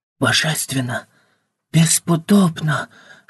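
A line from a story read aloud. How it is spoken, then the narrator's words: Joyful whispering. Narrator (Russian): шептали они, а в глазах у каждого светилась радость от приобщения к миру прекрасного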